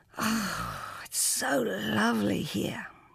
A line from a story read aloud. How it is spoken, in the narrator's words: she breathed